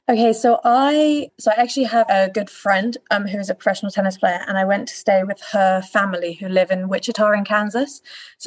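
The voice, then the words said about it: Slight English accent. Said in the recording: “you have a little bit of an accent, ... you're from England”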